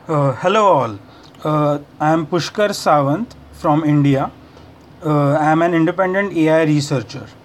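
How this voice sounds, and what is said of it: Heavy foreign accent. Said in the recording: “the accent is a little bit heavy. He's from a region of the world, very ancient and far away.”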